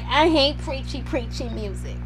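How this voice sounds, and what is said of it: Mocking voice. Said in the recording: “doing the mocking voice”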